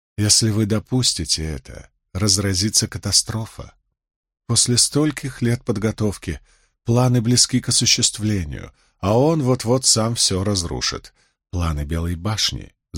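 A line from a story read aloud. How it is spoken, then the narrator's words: Calm, agreeing. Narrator (Russian): заметила Эмис так спокойно, будто соглашалась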